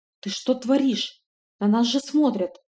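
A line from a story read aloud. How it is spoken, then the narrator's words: Frightened whisper. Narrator (Russian): испуганно прошептал Алоур, как благочестивая леди, которую застукали за каким-то непотребством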